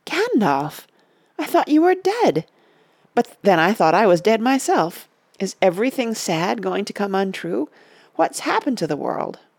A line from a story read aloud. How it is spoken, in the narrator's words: At last he gasped